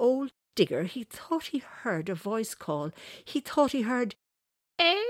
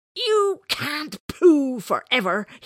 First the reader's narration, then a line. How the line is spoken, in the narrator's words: he roared